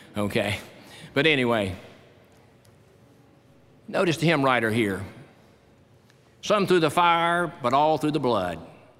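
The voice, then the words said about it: Strained, fading voice. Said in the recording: “My voice is going in here, and it goes on the tape.”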